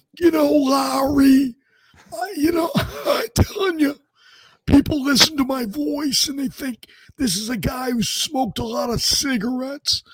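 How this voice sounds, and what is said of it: Trent Baalke impersonation. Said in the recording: “please do a Trent Baalke impersonation”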